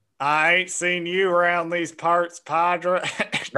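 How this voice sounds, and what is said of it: Put-on Southern Western drawl. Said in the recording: “in like a almost southern accent, which is like, that's a Western reference”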